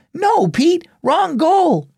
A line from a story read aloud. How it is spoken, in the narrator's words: shouted Annie